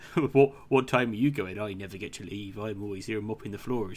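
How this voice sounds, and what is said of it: Put-on Bristolian farmer accent. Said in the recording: “this like Bristolian accent, or It's like farmer accent, like Somerset man”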